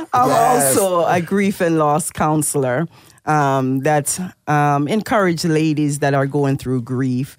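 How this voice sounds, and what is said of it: Jamaican accent. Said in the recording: “I love your accent. I know you're from the islands. ... Yes, I am from Jamaica.”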